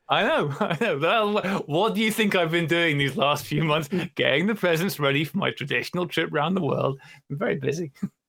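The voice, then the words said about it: Imitates another person's voice. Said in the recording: “That sounds like Santa Claus ... practicing your Dickie Attenborough accent ... I was really going more for Brian Blessed”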